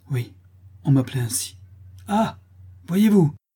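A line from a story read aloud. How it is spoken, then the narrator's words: Angry group exclaiming. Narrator (French): s'écrièrent les laboureurs courroucés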